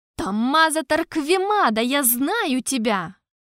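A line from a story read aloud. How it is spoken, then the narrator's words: Exclaiming. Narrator (Russian): воскликнул Эль-Кариана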